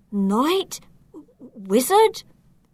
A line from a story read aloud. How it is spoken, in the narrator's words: He stammered